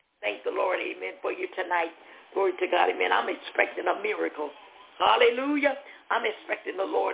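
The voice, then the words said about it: Hoarse voice. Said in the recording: “Forgive my hoarseness tonight. ... But we just been praising the Lord.”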